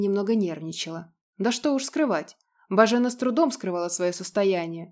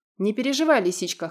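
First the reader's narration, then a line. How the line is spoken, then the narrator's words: Amused snort. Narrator (Russian): хмыкнул Радмир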